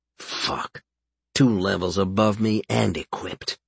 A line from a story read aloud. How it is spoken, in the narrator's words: he muttered